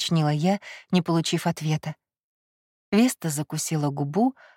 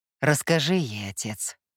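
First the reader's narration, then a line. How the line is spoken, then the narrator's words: Grim command. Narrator (Russian): мрачным тоном приказал Кай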